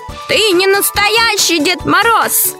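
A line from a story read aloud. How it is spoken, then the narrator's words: Shouting child. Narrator (Russian): закричал Лёшка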